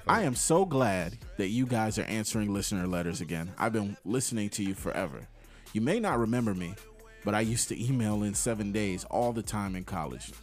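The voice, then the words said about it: Preppy, happy young woman's voice. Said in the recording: “let me put on my Nokia voice and this is what I would think that she sound like, mad, like preppy and happy”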